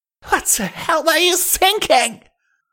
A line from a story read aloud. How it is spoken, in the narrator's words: She screamed